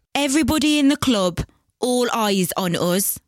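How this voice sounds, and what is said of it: Birmingham accent. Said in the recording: “this is a Birmingham accent. So this is like the Midlands.”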